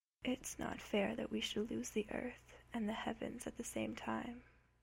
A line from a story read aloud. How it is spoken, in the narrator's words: Cass says quietly